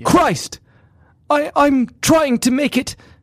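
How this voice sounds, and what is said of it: Put-on British accent. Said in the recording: “I should do this in a British accent.”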